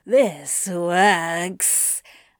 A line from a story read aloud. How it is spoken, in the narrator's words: Anthony purred into Crowley's ear